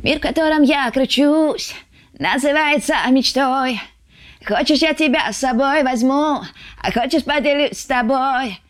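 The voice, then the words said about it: Sung imitation of another singer's voice. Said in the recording (Russian): “ты умеешь хорошо пародировать ... Арбакайте я делала”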